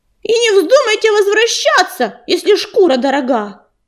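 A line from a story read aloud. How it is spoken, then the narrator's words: Shouted after them, rook. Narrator (Russian): крикнул им вслед грачик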